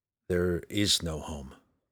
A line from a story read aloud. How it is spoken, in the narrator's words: Drizzt muttered to the frosty wind